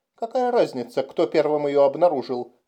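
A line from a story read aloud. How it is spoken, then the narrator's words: Exclaimed. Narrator (Russian): воскликнул Кассил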